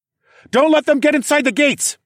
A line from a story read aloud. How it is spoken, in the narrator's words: I shouted